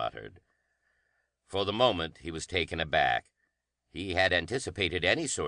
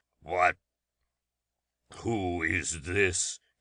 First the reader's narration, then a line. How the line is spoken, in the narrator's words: he growled